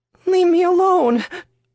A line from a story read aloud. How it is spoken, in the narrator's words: Camille cried softly, curled up in a ball on the concrete